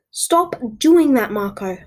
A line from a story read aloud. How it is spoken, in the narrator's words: I screamed at the top of my lungs